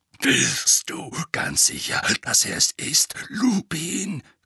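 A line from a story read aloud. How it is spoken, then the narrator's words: Growl. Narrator (German): knurrte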